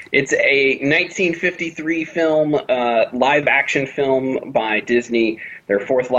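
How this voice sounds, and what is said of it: Usual voice. Nothing is said of it.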